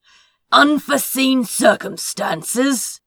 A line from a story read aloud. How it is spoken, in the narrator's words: he shouted